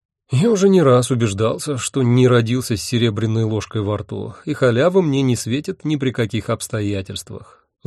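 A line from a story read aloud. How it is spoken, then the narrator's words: Sigh. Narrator (Russian): вздохнул я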